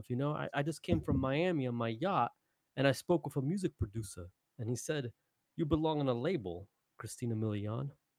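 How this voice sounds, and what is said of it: Chili Palmer impression. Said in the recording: “Chili Palmer, I just did a great impression of. ... I do a great Chili Palmer.”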